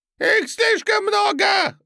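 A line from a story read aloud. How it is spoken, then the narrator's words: Shrill squeal. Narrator (Russian): завизжал свиноносый эльф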